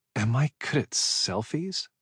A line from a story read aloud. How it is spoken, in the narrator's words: She muttered